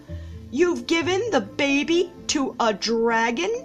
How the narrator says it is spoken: she cried

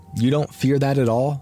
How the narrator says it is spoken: I asked

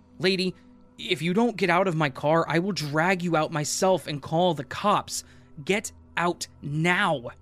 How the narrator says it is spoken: I screamed at the top of my lungs

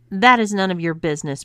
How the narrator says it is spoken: barked Adam

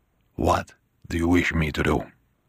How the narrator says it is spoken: Bonacera whispered

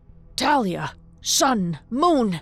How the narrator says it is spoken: he cried

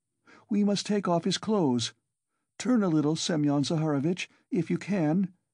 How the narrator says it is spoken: she cried to him

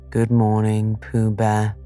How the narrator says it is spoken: said Eel gloomily

